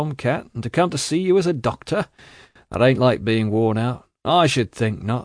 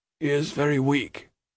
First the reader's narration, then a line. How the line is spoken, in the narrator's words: said the trooper in a low voice